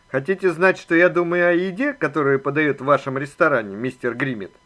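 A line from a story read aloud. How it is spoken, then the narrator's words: Dry question. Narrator (Russian): сухо спросил Макмахон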